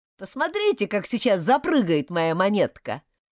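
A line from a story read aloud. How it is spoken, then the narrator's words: Shouted. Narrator (Russian): крикнул он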